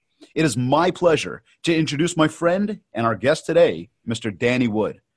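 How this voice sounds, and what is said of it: Polished radio announcer voice. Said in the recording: “thanks for your radio voice. That's on point.”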